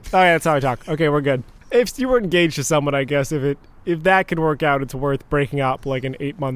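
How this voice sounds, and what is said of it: Usual voice. Nothing is said of it.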